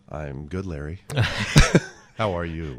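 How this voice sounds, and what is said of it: Smooth late-night radio DJ voice. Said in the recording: “talk like a jazz FM DJ”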